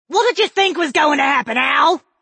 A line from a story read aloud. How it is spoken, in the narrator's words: Kes screamed over the clash of metal striking metal